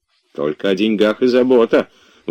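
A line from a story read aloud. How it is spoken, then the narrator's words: Grumbling. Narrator (Russian): ворчал Илья Ильич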